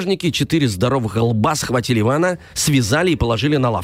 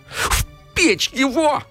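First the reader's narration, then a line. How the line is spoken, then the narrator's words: Yelling. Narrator (Russian): заорала Яга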